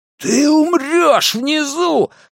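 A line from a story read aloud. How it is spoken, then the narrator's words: Roaring. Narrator (Russian): проревел Генри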